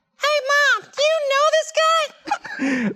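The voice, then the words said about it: Squeaky Mickey Mouse-like cartoon voice. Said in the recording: “That was like Mickey Mouse doing an impression of someone doing a Mickey Mouse impression. ... That was exactly Elmo.”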